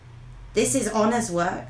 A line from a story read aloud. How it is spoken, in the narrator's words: proclaimed gravely